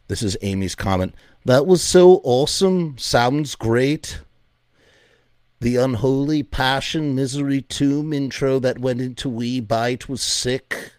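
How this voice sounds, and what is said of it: Put-on Liverpudlian accent. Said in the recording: “all of these comments in a Liverpudlian accent”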